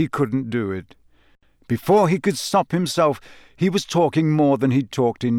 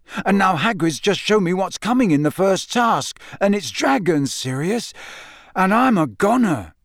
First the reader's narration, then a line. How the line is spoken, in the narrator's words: he finished desperately